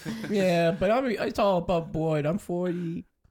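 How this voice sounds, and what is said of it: Baby voice. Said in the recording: “you talk in a widow baby voice.”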